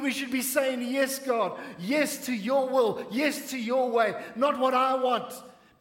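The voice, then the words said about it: Passionate shouting sermon delivery. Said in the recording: “Forgive me if I'm shouting a little bit this morning, but you know what? I'm honestly passionate about this.”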